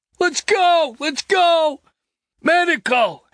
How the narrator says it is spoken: Hicks yelled to him

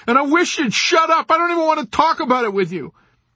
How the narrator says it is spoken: Nately shouted desperately

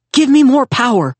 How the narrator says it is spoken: he begged the voice in his portal lens

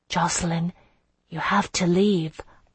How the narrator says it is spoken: I murmured

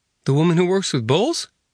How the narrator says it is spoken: Karma snorted

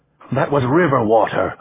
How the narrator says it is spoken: Ramon said impatiently

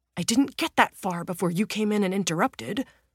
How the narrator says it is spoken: the younger man snaps

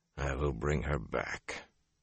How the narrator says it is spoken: he muttered to himself

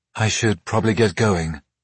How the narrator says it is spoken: she finally said

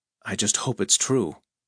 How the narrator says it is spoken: Very hoarsely, he said

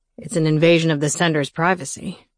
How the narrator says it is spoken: he grumbled

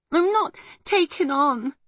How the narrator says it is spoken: gasped

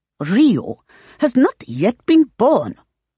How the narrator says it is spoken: Hong snaps in an acid tone

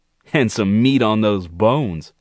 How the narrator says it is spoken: Gerald laughed

